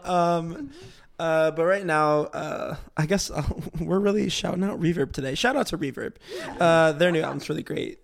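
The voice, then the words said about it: Worn-out, strained voice. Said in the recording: “Wow, my voice is done.”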